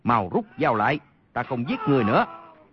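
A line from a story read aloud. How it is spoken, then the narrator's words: Shaken, loud shout. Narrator (Vietnamese): Y qua cơn kinh hoàng, quát lớn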